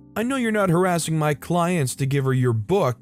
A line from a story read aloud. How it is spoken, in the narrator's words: the salon owner yell